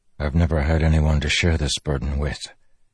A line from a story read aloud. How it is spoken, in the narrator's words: he said softly